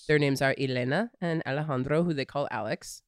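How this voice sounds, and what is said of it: Accented pronunciation of names. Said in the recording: “Are you adding the accent for effect here?”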